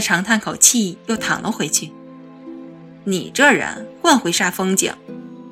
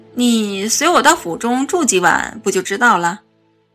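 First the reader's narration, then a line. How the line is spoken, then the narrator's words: Teasing, smiling. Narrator (Chinese): 他笑睨着我道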